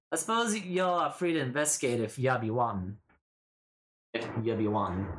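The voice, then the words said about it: Character voice with put-on accent. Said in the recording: “At least do some respect to the accent.”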